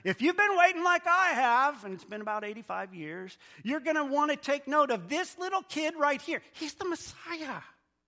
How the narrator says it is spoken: praising God and at the same time yelling to everyone around her

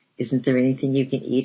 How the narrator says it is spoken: inquired my bridegroom anxiously

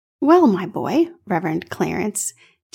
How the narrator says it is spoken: Chambers said

